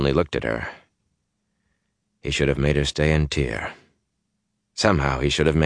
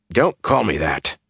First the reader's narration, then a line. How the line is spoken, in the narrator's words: Perrin told him sharply